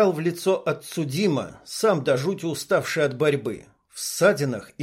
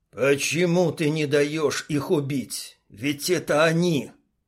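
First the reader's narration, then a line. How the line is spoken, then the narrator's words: Muffled hoarse, father. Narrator (Russian): Глухо прохрипел отец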